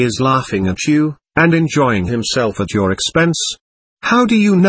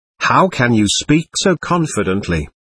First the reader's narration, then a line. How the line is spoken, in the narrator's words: Alishor asked sharply